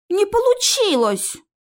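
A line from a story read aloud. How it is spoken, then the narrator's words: Offended. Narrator (Russian): Обиженно сказал Наев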